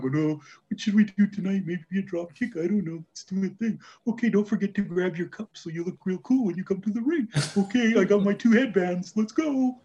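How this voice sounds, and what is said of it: Mocking impression of wrestlers. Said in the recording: “that impression”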